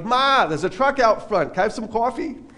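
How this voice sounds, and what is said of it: Strong Long Island accent. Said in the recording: “accent was a good bit stronger”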